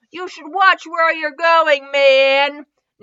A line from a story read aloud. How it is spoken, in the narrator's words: Naruto yelled at him